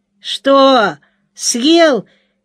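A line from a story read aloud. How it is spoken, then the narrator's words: Shouting. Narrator (Russian): крикнул Леня нашему обидчику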